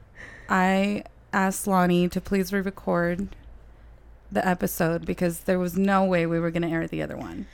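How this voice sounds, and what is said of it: Mexican accent. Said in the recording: “I might still have a Mexican accent, but I'm not congested.”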